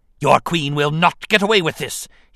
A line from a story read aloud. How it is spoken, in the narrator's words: he snapped, enraged at having been deceived